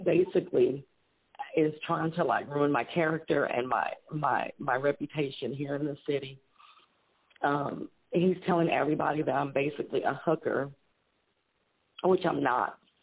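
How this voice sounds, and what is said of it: Emotional, upset voice. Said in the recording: “I'm getting emotional right now.”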